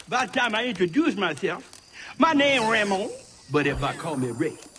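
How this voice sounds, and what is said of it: Cajun accent. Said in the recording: “your accent, it's funny, no? ... I'm a Cajun, bro. Born and bred in the bayou.”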